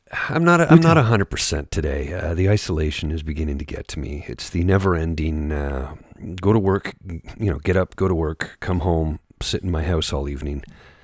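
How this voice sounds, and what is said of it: Congested, stuffy-sounding voice. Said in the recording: “You can probably hear it in my voice. The allergies are acting up ... I can definitely hear it.”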